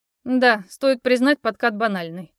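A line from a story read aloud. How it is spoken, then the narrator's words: Snorting. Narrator (Russian): хмыкнул Алекс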